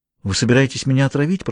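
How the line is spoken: Whispered. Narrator (Russian): прошептала она

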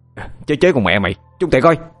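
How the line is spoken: Shouted. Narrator (Vietnamese): Một thằng khác hét lên

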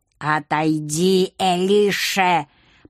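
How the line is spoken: Hiss from behind. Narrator (Russian): прошипел Патагеш за моей спиной

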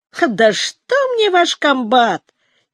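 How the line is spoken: Ironic snort. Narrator (Russian): иронически хмыкнул Арслан

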